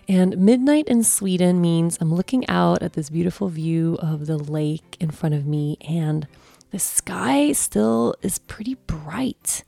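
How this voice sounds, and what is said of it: Tired, low-energy late-night voice. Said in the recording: “I think you can tell by my voice that it's not middle of the day and all this energy, but it's midnight.”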